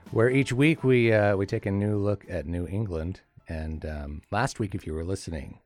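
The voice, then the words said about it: Slightly hoarse voice. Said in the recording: “my voice is a little bit hoarse, I think we could say.”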